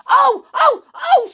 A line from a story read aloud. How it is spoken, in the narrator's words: screamed the little man in a rage